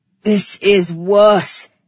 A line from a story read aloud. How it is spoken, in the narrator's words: he roared